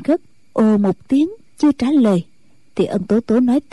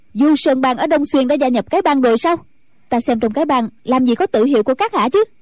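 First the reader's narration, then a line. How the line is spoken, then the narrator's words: Sudden sharp shout. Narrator (Vietnamese): Ân Tố Tố bỗng quát lên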